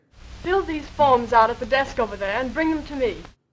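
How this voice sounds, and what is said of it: Mid-Atlantic accent, part British part American. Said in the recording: “accent that was part British, part American. We sometimes think of it as the Mid-Atlantic accent... a great example of this accent”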